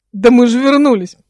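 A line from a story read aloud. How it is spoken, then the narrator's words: Roar. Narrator (Russian): проревел он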